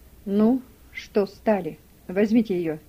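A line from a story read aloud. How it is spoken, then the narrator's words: Dry, curt. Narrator (Russian): сухо сказал Гейли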